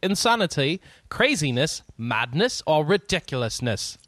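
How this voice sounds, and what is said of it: Put-on British accent. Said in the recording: “let me try and say it British for you”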